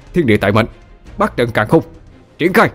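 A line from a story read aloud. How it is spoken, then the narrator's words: Shouted incantation. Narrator (Vietnamese): Quân quát lên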